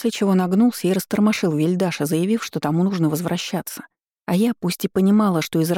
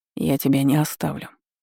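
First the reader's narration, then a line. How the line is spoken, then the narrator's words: Calm declaration. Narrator (Russian): спокойно заявил Шаур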